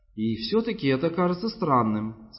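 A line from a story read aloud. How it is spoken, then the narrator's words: Plain. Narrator (Russian): сказала она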